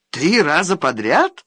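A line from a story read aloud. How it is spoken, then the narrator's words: Skeptical snort. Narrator (Russian): хмыкнул Иванихин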